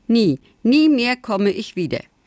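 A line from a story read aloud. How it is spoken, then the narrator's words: Called out. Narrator (German): rief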